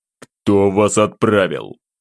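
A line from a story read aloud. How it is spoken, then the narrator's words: Growling demand. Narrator (Russian): рыкнул я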